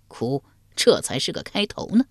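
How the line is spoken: Cold. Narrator (Chinese): 冷声说道

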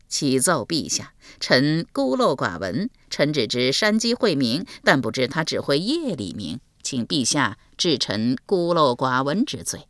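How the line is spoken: Ingratiating, smiling. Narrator (Chinese): 满脸陪笑，说道

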